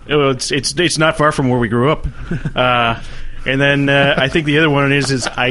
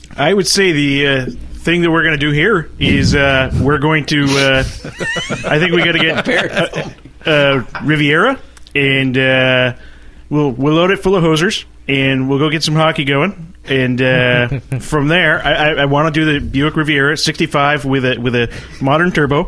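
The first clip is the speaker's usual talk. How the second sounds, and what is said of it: Put-on Minnesota accent. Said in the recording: “that's the best accent ... has ever done ... Minnesota”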